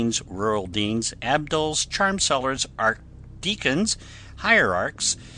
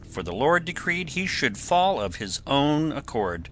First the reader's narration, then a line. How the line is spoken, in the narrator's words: cried one